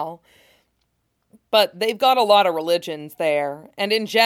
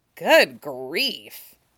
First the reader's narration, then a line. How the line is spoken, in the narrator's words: Ed mutters